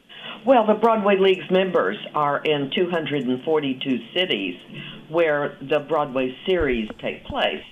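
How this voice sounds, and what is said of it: Texas accent. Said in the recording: “I could tell from the moment you opened your mouth that you are not a New York City native. I can spot that lovely Texas accent from a mile away.”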